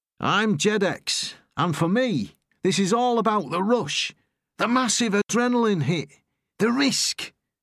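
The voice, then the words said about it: Northern English Manchester accent. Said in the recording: “His accent is northern, from Manchester, perhaps.”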